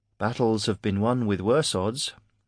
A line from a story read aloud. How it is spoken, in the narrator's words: said Mara calmly